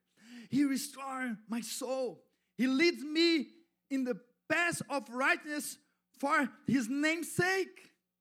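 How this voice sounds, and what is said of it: Non-native English accent. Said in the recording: “my English accent”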